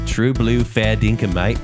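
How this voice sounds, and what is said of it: Put-on Australian accent. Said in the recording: “Australian accents”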